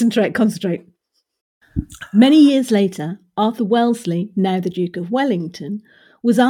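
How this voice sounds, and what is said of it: Usual voice. Nothing is said of it.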